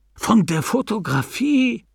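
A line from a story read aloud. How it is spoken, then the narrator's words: Called out. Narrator (German): rief Mr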